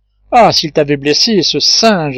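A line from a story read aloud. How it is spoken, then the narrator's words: Exclaimed. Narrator (French): s'écria Pencroff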